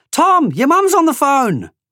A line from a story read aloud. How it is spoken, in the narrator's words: His mum, Janice, shouted out the window